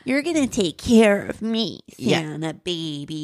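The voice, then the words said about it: Baby voice, slightly congested. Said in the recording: “baby voice? Baby voice with what also sounds like it might be a cold.”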